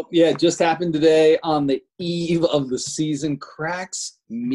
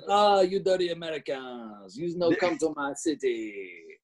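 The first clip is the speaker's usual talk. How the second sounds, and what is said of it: Put-on French-Canadian accent. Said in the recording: “that's a fantastic Canadian accent. Really good Canadian accent. ... it's a French-Canadian accent.”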